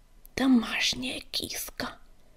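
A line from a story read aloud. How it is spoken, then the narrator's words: Contemptuous hiss. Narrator (Russian): с презрением прошипела она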